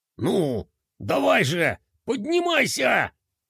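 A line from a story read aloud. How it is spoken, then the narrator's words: Gritted through teeth. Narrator (Russian): Сквозь зубы процедил генерал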